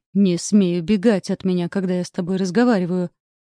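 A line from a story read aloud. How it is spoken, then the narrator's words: Growled. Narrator (Russian): прорычал он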